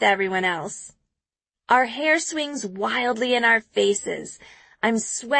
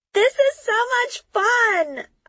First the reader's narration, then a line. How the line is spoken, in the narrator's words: I scream in Chris's face